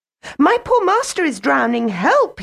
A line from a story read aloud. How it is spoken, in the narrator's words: he cried